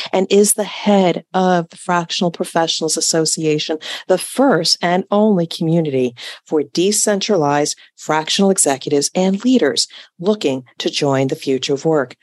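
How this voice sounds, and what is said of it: Smooth, sultry radio voice. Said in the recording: “I love your radio voice. It's so smooth and sultry.”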